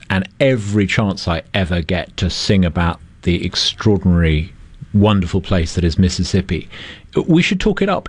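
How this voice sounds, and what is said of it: Non-local accent. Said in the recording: “I'm a newcomer to Mississippi, you can tell by my accent.”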